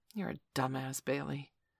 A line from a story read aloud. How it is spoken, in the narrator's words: he said to himself quietly